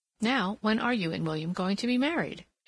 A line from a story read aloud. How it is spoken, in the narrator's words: asked